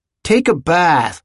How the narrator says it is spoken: would shout

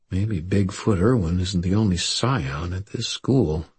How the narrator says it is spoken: muttered to myself

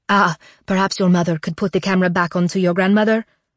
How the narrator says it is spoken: Agnieszka says urgently

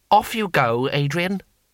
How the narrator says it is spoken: he said firmly

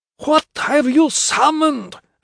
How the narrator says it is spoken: Athanasius yelled

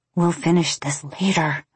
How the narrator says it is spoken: I said, not much more than a whisper

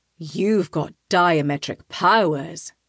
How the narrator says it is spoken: he snarls

